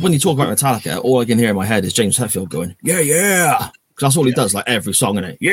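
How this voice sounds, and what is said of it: Usual voice. Nothing is said of it.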